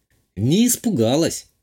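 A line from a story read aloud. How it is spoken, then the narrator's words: Scoffing snort. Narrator (Russian): хмыкнула графиня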